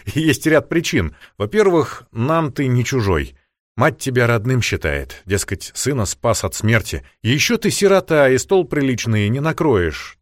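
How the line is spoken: Plain. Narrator (Russian): так она сказала

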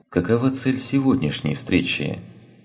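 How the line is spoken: Much more neutral question. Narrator (Russian): спросила Азари намного более нейтральным тоном

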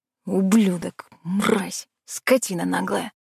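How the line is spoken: Muttered through teeth. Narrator (Russian): Стас пробормотал сквозь зубы

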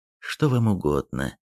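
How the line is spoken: Low-voiced woman asking. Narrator (Russian): спросила дама низким голосом

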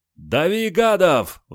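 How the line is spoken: Excited group shouting. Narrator (Russian): взволнованно закричали диверсанты

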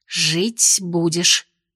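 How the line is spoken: Whispered, foreign language. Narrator (Russian): шепнула ему Венди по-тероярнски

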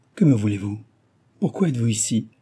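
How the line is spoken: Unsteady voice. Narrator (French): demanda Susanna d'une voix mal assurée

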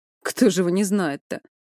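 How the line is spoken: Grunting. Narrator (Russian): Владимир хмыкнул

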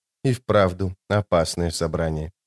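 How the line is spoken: Muttering fox. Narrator (Russian): пробормотала серебряная лиса

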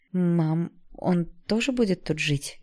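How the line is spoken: Frightened question. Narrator (Russian): испуганно спросила

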